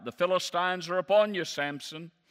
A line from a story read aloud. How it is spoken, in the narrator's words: she cried out